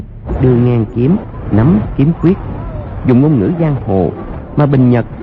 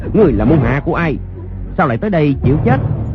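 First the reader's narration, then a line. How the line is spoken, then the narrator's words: Loud shout. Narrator (Vietnamese): Người sử đơn đao quát lớn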